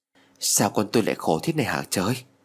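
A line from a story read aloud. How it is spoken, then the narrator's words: Mother's mutter. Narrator (Vietnamese): Mẹ lại cầm tay của em lẩm bẩm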